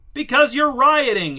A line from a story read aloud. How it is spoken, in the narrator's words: shouted Angelo